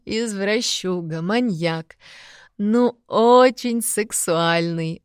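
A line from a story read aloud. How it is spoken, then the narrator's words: Laughing in ear. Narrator (Russian): Опять засмеялась она мне на ухо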